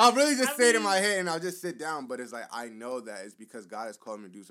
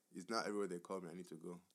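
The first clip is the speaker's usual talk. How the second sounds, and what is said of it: Imitates a parent's accent. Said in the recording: “I say in that exact accent in my head”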